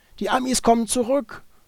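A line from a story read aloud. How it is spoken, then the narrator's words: Nearby male voice calling. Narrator (German): rief eine männliche Stimme in der Nähe auf Deutsch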